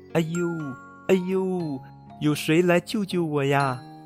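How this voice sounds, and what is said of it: Very thin, tiny voice. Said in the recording (Chinese): “一个很细很细的声音”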